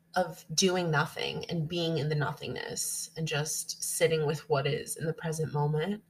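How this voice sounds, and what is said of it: Congested, sick-sounding voice. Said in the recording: “I'm still getting over the flu. I don't know if you could hear it in my voice. ... I have the worst like post-nasal drip and sinus infection.”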